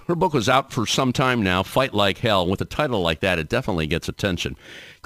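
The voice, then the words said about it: Polished radio announcer voice. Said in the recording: “I am loving your radio voice. ... it's taking me back to my time doing college radio”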